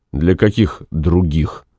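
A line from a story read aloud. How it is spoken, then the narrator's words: Gloomy question. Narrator (Russian): мрачно спросил Максим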